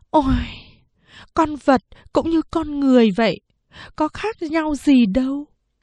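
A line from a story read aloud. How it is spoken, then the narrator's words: Sighing. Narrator (Vietnamese): Mẹ thở dài nói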